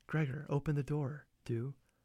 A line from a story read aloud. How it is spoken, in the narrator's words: his sister whispered